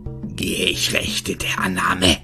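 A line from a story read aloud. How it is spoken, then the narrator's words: Hissing, angry and pained. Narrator (German): fauchte halb wutschnaubend, halb schmerzverzerrt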